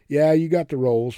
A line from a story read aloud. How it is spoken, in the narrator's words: Mick laughed